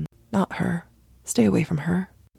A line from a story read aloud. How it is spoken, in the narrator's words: whispers in their minds saying